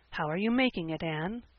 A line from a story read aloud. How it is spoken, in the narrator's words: he whispered, as if afraid of being overheard